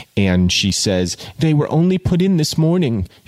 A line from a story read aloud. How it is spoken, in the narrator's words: she cried, stimulated to pursue